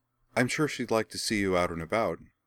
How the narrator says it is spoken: she said

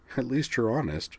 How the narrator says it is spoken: said with a weak chuckle

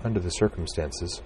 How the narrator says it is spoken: said softly

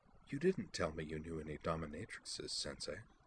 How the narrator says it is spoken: in a low voice, she said

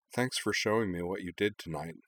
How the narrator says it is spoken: said Anne

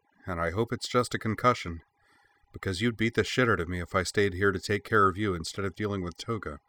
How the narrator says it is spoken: she muttered

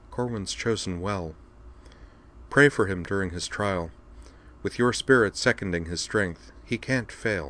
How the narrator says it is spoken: saying softly

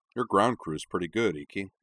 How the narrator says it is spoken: said Corwin cheerfully

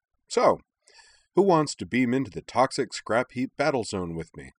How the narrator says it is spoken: said brightly

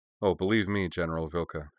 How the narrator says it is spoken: he said

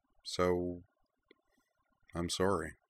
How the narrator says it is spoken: said quietly

